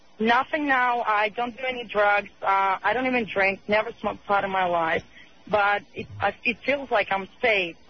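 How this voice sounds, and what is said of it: Russian accent. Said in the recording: “Are you Norwegian or something? What is your accent? ... I'm Russian.”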